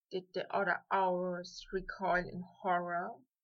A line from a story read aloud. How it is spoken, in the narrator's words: Draco whispered at last